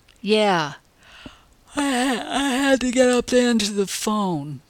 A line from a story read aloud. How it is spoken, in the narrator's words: yawned sleepily